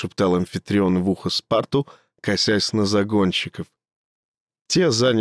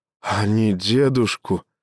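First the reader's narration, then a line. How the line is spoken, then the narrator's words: Boy forcing words out. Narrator (Russian): выдавил мальчик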